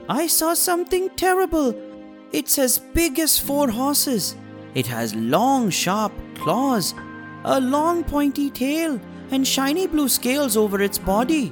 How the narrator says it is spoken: He cried to his wife and son

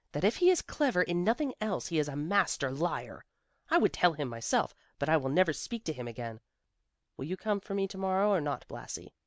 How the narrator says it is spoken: she said scornfully

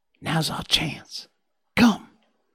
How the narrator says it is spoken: Tom whispered

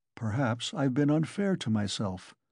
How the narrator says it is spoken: he observed gloomily, pondering

